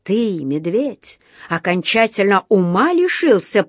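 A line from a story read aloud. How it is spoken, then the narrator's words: Hissing. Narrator (Russian): прошипел он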